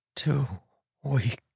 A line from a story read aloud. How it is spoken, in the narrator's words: he whispered